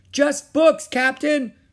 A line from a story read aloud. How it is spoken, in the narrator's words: shouted Stinky